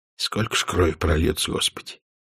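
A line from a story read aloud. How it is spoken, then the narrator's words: Quiet. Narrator (Russian): тихо сказал Радыгин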